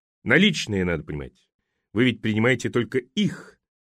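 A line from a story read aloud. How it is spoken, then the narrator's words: Reproachful question. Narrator (Russian): укоризненным тоном спросил он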